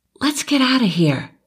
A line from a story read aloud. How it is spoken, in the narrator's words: whispered